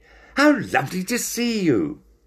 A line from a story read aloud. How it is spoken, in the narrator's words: he said excitedly